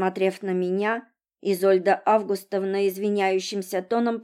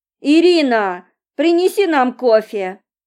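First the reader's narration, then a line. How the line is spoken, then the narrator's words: Loud booming shout. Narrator (Russian): глубоко вздохнув, зычно прокричала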